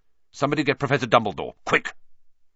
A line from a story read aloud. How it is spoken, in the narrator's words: Percy say, in a suddenly sharp voice